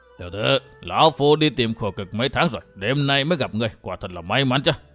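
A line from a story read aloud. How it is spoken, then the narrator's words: Hoarse ghostly old voice. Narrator (Vietnamese): lão quái nhân áo đỏ bịt mặt cất giọng khàn khàn như quỷ mùi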